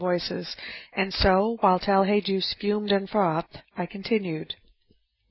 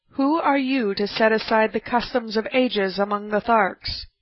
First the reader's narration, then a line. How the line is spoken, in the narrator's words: exclaimed Lorcus Tomal